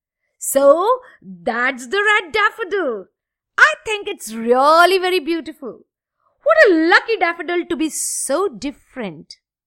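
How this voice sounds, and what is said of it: Little girl's very big voice. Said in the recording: “exclaimed the little girl in a very big voice.”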